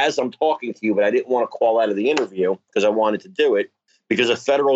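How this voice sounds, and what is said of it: Usual voice. Nothing is said of it.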